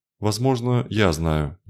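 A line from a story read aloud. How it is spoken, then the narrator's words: Uncertain. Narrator (Russian): неуверенно сказала Рада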